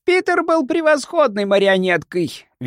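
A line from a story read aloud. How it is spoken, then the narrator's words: Shrill fat man. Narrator (Russian): визгливо продолжал толстяк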